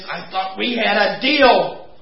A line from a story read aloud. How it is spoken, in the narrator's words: he hissed